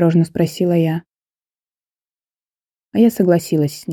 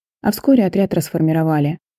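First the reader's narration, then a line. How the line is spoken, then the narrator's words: Cold, indifferent tone. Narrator (Russian): сказала Вероника уже совершенно другим, своим обычным, холодным и равнодушным тоном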